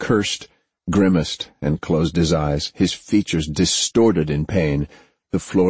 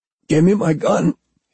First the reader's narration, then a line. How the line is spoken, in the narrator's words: he choked out